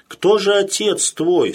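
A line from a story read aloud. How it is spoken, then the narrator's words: Plain. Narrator (Russian): спросил государь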